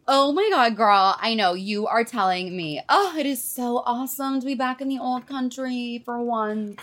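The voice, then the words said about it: Strong put-on American accent. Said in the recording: “you sound different ... I suppose that'll happen after so many years in the US of A ... My accent is not that strong”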